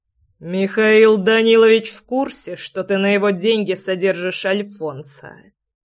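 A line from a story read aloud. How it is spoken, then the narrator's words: Through gritted teeth. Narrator (Russian): Процедил Влад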